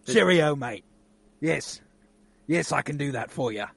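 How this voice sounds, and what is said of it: Put-on British accent. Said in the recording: “He'd affect this weird British accent.”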